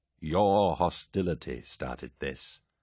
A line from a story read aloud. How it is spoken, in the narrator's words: Logan said calmly